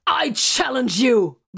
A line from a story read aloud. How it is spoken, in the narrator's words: Vox hollered